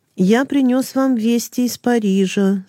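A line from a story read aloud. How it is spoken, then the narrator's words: Plain. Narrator (Russian): сказал он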